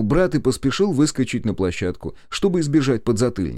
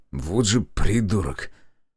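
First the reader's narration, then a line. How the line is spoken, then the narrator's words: Mutter. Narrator (Russian): пробормотал я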